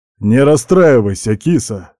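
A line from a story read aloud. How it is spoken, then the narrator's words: Werewolf's chuckle. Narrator (Russian): хохотнул оборотень-волк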